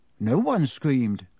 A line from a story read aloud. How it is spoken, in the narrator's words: said Ron, more nervously still